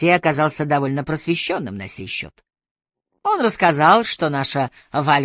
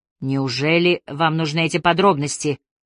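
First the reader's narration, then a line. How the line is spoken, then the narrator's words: Irritated question. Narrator (Russian): раздраженно спросил Пилгрим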